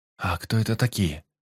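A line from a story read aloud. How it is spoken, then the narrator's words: Quiet question. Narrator (Russian): тихо спросил Марти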